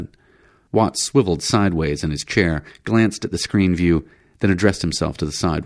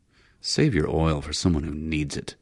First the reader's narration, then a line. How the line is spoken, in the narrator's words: McKee growled